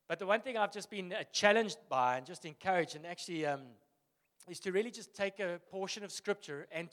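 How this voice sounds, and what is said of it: Husky morning voice. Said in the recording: “Is it just my sexy voice? Got my morning voice on.”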